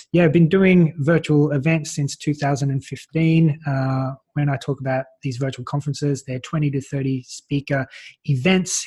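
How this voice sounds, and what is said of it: Australian accent. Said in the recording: “your accent is not Maltese ... Australia”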